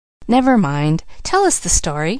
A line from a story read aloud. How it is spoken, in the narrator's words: said the preacher himself, eagerly